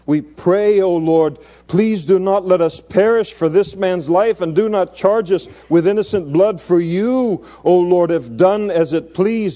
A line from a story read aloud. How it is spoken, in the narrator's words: they cried out to the Lord, and they said